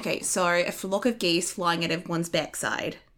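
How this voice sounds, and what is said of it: Put-on Australian accent. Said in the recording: “I can do a really good Australian accent. ... That is so good. ... an Australian joining.”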